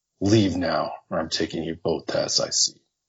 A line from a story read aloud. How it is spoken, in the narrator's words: growling